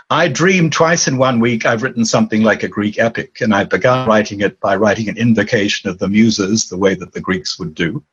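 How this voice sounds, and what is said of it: Anglo-Australian accent. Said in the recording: “my accent is not immediately identifiable. It's a sort of Anglo-Australian accent. It's a bit hard to name exactly where it comes from.”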